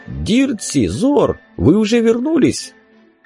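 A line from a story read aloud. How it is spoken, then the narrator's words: Astonished exclamation. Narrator (Russian): Шакнеш изумленно не воскликнул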